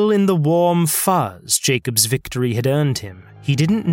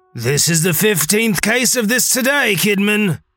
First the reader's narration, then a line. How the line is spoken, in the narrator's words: one officer yelled to a second